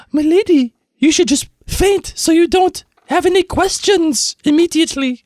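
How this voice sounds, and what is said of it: Imitates a character's accent. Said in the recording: “Do you like that accent too?”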